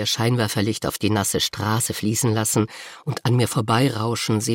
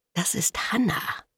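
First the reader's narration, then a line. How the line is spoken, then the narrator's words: Whispering. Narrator (German): flüstert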